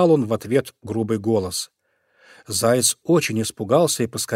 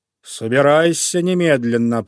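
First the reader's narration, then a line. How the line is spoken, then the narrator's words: Menacing growl. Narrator (Russian): прорычал он грозно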